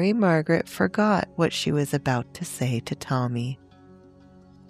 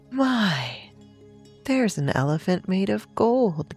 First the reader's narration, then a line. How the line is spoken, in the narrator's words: gasped Stella